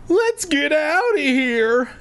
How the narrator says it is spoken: April pleaded

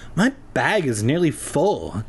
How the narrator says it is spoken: Tabby replied with a groan

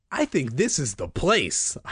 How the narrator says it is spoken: I exclaimed happily

